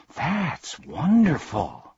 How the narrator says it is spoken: gasped Milo

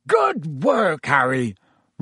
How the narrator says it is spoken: roared Hagrid

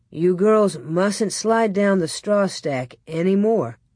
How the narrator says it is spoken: Pa said

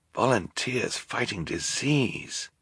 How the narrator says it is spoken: Klaus whispered to Violet

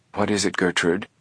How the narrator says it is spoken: their mother's voice asked softly

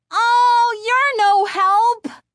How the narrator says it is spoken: Chris screamed angrily

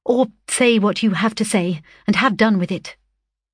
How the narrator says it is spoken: fearing he would obey too well and never come again, I hastily added

